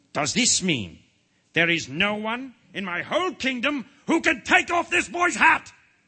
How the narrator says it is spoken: bellowed the king in a terrifying voice

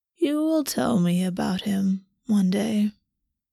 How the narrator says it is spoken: the Raven Prince said, sighing

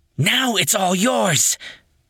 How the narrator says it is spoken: Yuria cried

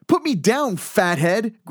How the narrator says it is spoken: Greg shouted

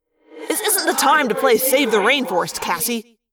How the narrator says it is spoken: Marco snapped

